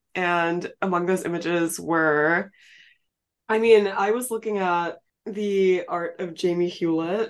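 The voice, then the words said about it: Sick, strained voice. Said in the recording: “sorry about my voice this episode, guys. I am a little bit sick.”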